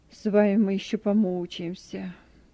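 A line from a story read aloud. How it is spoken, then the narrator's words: Grumble. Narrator (Russian): проворчал Петр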